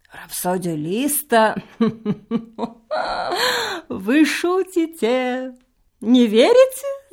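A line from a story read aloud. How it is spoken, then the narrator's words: Laughing. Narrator (Russian): засмеялся Лакеич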